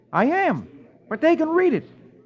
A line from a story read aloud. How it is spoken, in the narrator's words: Dick replies cheerfully